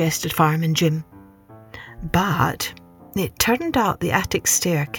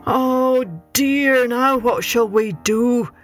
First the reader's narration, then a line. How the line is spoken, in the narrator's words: wailed Mr